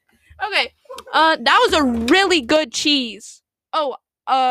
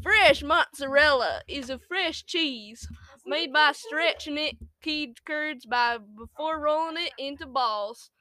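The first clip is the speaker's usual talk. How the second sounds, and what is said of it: Put-on cowboy accent. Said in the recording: “What voice should I do? ... Do a cowboy accent. Cowboy!”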